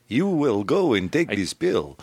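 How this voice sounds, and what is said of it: Mock foreign villain accent. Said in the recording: “was that a French accent? Was that a German-French accent? ... it sounded like Bela Lugosi”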